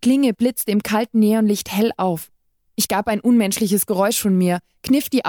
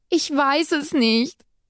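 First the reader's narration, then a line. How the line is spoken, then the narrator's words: Called out. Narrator (German): rief ich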